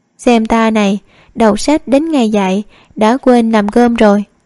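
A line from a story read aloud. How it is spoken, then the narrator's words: Sighing. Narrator (Vietnamese): Trầm Mạc Nương thở dài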